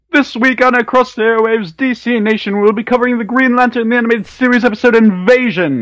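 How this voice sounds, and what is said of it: Booming radio announcer voice. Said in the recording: “announcer voice. And in your outstanding announcer voice”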